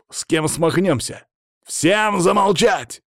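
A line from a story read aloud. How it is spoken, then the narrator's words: Barked shout. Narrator (Russian): гаркнул я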